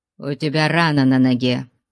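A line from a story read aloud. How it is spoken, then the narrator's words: Grumbled. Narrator (Russian): буркнул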